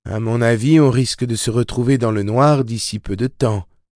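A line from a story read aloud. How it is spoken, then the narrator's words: Gloomy tone. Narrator (French): dit d'un ton morose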